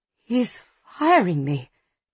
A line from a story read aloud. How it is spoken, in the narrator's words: she whispers